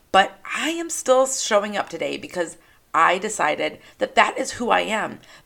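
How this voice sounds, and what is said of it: Scratchy, slightly hoarse voice. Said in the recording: “I wish that my voice was a little less scratchy ... My voice might not sound as clear as a bell”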